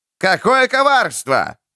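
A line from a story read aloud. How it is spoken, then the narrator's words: Jester shouting. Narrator (Russian): орал скоморох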